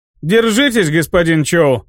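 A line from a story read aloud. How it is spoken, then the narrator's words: Chuckling. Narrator (Russian): хохотнул Магвай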